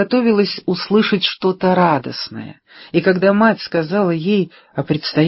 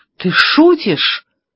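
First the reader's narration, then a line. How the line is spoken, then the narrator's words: Exclamation. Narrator (Russian): воскликнула наконец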